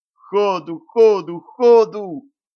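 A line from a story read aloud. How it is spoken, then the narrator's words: Howl. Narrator (Russian): взвыл Борман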